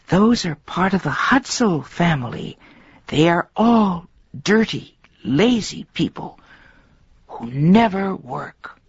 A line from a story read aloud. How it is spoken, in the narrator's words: someone behind her whisper